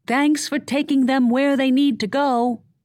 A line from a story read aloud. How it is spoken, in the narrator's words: Lexi yelled, remembering Myra was hard of hearing